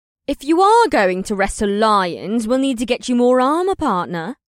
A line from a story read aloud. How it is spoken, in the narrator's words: she said in a bantering tone